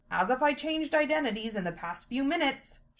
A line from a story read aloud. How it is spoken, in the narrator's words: she grumbled